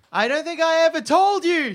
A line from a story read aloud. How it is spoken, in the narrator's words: she yells over the howling wind